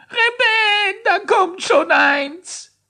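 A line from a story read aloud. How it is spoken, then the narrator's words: Shouting. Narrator (German): schrie er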